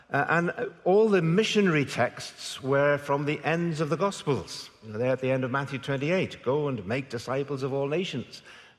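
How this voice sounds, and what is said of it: Northern Irish accent. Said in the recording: “I went to many a missionary convention in Northern Ireland, which, by the way, is where the accent comes from”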